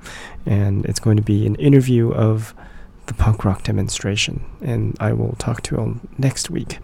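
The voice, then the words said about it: Hoarse, strained sick voice. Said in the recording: “I've got my awesome radio voice. It's called Having the Flu and Trying to Talk and It's Not Working ... when I get my voice back”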